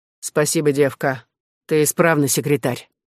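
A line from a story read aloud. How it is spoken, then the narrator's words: Cold. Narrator (Russian): услышала холодно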